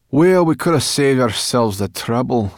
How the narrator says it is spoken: said Sorrel crossly

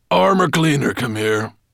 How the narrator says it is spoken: growled Nettlebrand

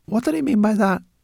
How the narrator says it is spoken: asked Zorl anxiously

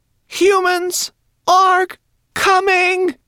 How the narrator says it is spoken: she cried

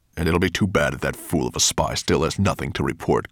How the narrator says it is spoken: growled Nettlebrand

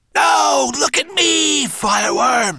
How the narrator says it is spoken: screeched the cockerel-headed monster

